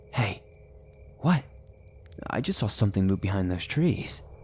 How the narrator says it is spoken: I whispered to Austin

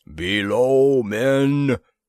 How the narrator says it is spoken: thundered a Skygor guard

